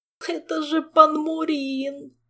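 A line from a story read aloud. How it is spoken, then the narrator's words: Tearful moaning. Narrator (Russian): простонал Жак, утирая слезы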